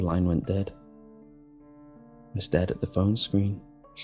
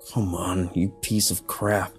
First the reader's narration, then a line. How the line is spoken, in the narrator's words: I snarled